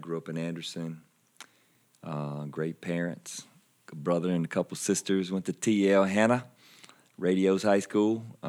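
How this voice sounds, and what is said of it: South Carolina Southern US accent. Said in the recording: “Most people can tell by my accent that I'm from South Carolina.”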